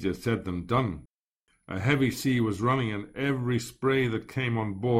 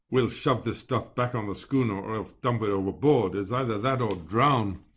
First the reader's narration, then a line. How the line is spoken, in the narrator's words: grumbled